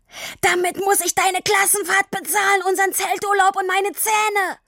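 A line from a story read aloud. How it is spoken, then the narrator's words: Continued bellowing. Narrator (German): Nachdem er ausreichend Luft geholt hatte, brüllte er weiter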